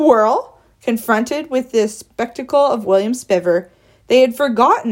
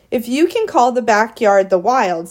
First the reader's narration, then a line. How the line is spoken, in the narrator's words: said William Spiver